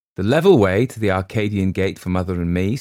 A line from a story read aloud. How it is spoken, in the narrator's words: said Mr